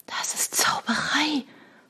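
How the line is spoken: Stunned whisper. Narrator (German): flüsterte Shona, die wie gelähmt war von dem silbernen Drachen

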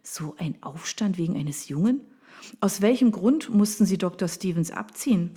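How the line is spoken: Plain. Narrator (German): fragte sie

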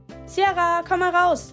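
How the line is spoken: Father calling out. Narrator (German): rief ihr Vater

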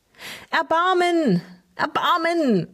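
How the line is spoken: Calling out. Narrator (German): rief Tinus

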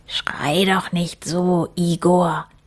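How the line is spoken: Whispered. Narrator (German): flüsterte der andere

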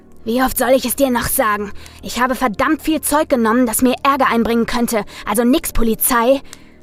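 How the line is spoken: Growling. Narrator (German): knurrte Andy

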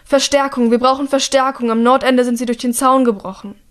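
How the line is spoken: Shouting. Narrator (German): ruft

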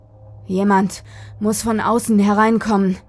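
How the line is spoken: Panting. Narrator (German): keuchte er

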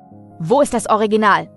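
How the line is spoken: Curt interruption. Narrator (German): unterbrach ihn Arthur zum zweiten Mal, schroff

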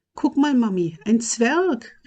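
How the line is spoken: Little girl calling out. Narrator (German): rief ein kleines Mädchen

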